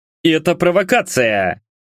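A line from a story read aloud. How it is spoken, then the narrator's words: Barking shout. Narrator (Russian): рявкнул младший городовой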